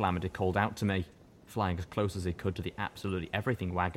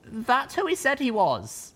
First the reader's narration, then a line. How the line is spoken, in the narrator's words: I called back, hating how much effort it took to shout